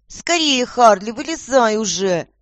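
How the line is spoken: Shouting. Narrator (Russian): закричала Воронкова

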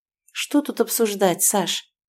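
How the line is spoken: Quiet whisper. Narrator (Russian): шеплю тихо, чтобы дети не слышали нашу перепалку

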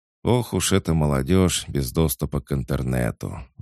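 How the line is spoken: Sighing cat. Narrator (Russian): вздохнул кот

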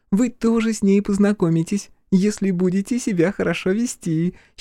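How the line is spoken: Giggling promise. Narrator (Russian): хихикнув, пообещала она

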